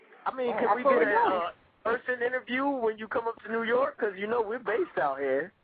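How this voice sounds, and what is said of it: New York accent. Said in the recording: “I can tell you all are from New York. It's your voices. ... We had an accent.”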